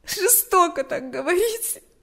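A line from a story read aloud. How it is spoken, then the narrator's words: Sobbing. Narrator (Russian): ответила Галя, всхлипывая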